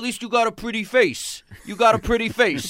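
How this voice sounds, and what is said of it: Imitates another person's voice. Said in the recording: “That was an excellent impression of, Chrissy Everett?”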